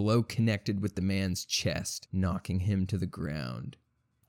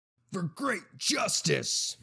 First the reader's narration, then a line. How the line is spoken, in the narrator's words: Mordecai shouted